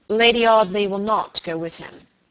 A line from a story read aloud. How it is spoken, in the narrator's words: said Robert gravely